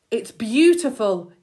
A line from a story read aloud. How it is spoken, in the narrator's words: he cried